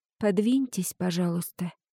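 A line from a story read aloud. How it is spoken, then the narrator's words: Quiet request. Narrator (Russian): тихо попросила я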